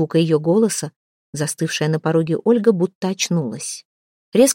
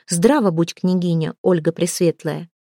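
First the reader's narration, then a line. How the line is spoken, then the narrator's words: Calm, suppressed irritation. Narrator (Russian): Малфутка невольно ощутила раздражение и, даже не поклонившись княгине-сопернице, сказала спокойно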